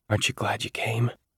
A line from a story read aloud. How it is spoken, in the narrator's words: I whispered to Jaya